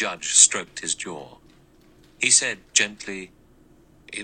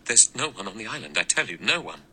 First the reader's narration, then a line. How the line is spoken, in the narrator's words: Armstrong said in a trembling voice